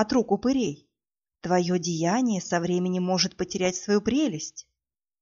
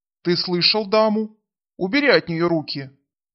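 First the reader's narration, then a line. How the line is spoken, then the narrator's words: Growling. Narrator (Russian): прорычал Бинет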